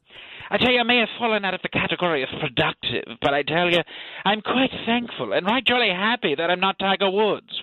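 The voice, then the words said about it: Put-on British accent. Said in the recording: “Why did you adopt a British accent and not an American accent?”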